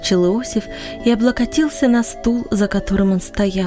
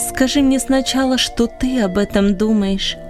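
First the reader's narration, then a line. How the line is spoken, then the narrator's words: Plain. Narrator (Russian): ответила Анни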